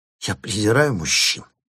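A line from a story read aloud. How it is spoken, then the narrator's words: Hissing through teeth. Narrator (Russian): прошипела она сквозь свои маленькие зубки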